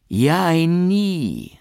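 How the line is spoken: Enthusiastic exclamation. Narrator (German): rief er ganz wie die alten Damaszener, wenn sie begeistert sind

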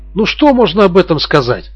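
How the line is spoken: Exclamation. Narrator (Russian): воскликнул Гирланд

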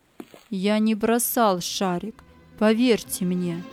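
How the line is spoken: Firm voice. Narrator (Russian): Тип сказал твердым голосом

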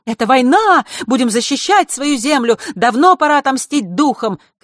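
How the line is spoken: Shouting crowd. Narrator (Russian): кричали одни

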